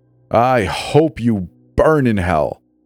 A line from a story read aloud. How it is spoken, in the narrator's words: The ragged shout